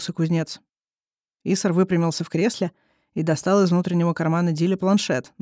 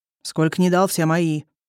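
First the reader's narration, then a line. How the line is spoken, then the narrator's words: Snapping retort. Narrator (Russian): огрызнулся купец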